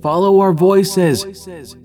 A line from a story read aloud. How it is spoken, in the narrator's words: Tom shouted